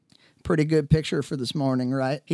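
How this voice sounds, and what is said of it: Good-humored, slightly twangy accent. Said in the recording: “he said in his well-humored, slightly twangy accent.”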